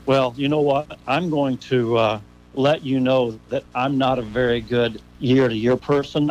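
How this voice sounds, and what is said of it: Strong radio voice. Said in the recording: “You got that strong radio voice.”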